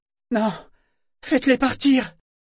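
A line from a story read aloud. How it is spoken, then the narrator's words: Exclaimed. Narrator (French): s'exclama-t-elle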